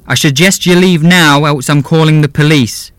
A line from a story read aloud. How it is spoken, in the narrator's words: he bellowed